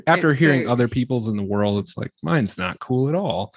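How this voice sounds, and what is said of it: Midwestern American accent, hard R's. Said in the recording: “I don't like my accent. Really don't. Accent. ... Bunch of hard R's because the people in the Midwest ... it's like a hard R with a wah sound”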